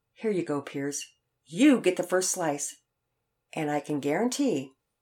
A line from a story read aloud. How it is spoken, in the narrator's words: playfully declared